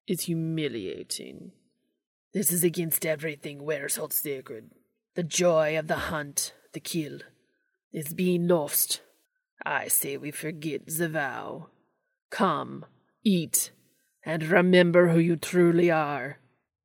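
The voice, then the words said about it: Loud hissing mid-European accent. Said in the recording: “spoke louder in a mid-European accent ... he hissed out”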